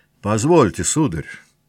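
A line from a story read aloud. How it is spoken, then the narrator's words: Dry, unpleasant. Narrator (Russian): сухо неприятно обратился князь Андрей по-русски к князю Ипполиту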